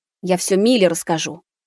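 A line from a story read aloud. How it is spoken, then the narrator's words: Angry spat words. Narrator (Russian): Зло выплюнула Маруся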